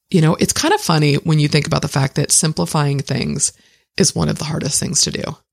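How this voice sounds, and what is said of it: Hoarse, worn-out voice. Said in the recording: “my voice is really, really going”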